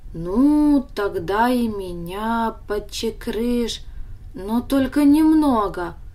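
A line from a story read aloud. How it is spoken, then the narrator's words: Hesitant request. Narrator (Russian): неуверенно попросил Даня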